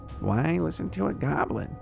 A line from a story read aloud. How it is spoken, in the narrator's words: Tapper muttered